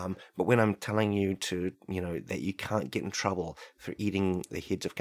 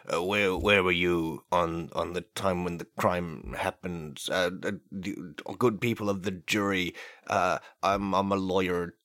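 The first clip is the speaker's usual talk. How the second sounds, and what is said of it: Mock lawyer voice. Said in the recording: “this is me impersonating a lawyer”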